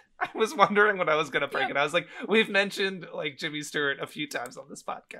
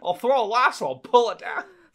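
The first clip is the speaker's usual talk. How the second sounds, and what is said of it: Imitates another person's voice. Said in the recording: “one of the best, if not, in my opinion, the best Jimmy Stewart impression ... You're going to talk like Jimmy the whole time.”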